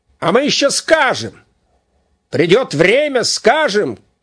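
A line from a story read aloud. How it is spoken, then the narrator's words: Shouted. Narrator (Russian): крикнул Дубава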